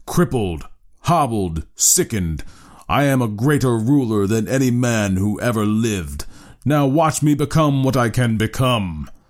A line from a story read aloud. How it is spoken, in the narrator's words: he bellowed